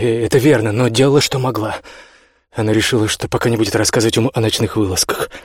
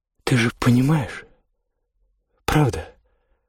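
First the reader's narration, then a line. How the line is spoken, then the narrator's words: Pleading whisper. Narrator (Russian): умоляюще прошептала она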